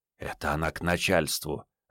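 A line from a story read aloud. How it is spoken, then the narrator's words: Whispered explanation. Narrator (Russian): отчего-то шепотом пояснил капитан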